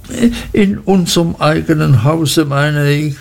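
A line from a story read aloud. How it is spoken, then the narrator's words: Frightened mother stammering. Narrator (German): stotterte meine Mutter ganz erschrocken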